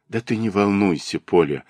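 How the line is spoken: Gentle coaxing, smiling. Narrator (Russian): уговаривал он ее, ласково улыбаясь

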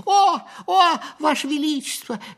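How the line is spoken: Overlapping squeaky voices. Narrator (Russian): наперебой запищали они

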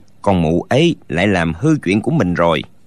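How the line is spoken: Mutter. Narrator (Vietnamese): lão lẩm bẩm

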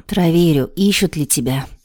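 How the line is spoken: Sighing. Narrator (Russian): вздохнула Вероника

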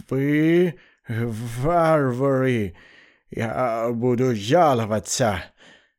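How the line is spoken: Exhaled, stuttering Englishman. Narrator (Russian): выдохнул англичанин, при этом стал сильнее заикаться

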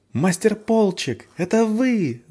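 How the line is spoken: Shrieking. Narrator (Russian): завопила Валь

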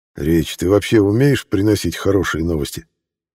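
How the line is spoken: Gloomy, tense question. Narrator (Russian): мрачно спросил скупщик, о чем-то напряженно думая

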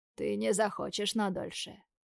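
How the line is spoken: Calm reply. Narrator (Russian): отвечает спокойно

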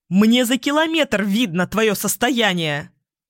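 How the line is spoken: Almost shouting. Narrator (Russian): уже почти кричал принц

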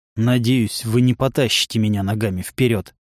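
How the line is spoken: Commander grumbling. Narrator (Russian): проворчал командир

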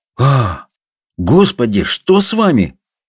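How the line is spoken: Exclaimed. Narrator (Russian): воскликнул доктор

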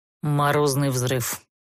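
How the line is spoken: Dry, composed reply. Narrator (Russian): Сухо ответил герцог, успевший полностью взять себя в руки

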